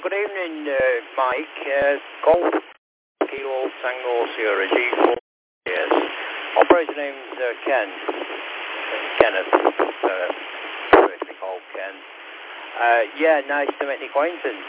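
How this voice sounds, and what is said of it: Wigan northern English accent. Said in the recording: “Wigan ... As you can tell by the accent.”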